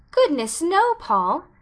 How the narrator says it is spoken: exclaimed Anne in amazement

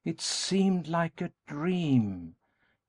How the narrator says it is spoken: Kate exclaimed with a sigh

